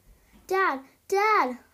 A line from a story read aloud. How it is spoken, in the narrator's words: cried out